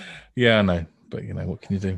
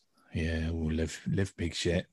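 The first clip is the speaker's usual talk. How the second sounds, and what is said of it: Put-on Somerset accent. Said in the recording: “Don't default to a Somerset accent, what's wrong with you? Such a stereotype.”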